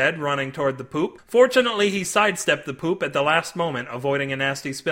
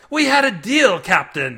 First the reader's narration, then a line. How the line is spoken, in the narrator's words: screamed